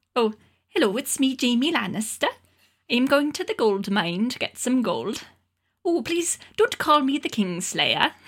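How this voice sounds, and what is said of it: Character voice in Welsh accent. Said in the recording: “Crank up the Welsh... Is there like a Welsh specific character that you do?... do your Welsh Jaime Lannister.”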